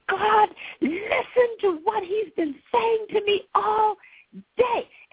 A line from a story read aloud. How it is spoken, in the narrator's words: I yelled to my Father